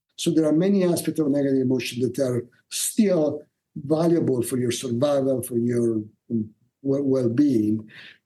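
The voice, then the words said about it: Italian accent. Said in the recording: “he's got a cool Italian accent. But you're going to have to listen very carefully.”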